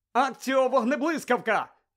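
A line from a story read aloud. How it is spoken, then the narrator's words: Shout. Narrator (Ukrainian): закричав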